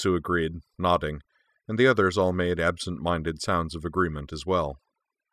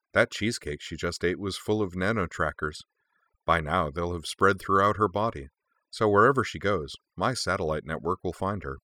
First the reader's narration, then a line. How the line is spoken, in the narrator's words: Mugi added cheerfully